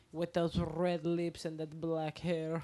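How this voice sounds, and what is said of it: Natasha-style Russian accent. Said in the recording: “You sound like Natasha from fucking... Rocky and Bullwinkle.”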